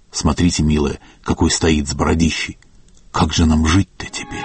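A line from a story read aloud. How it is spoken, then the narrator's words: Whispering. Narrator (Russian): шепнула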